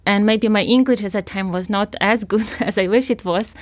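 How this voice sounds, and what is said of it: Foreign accent in English. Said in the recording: “somebody who had an accent ... negative feedback from students about her accent”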